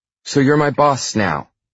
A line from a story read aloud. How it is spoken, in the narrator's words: she snaps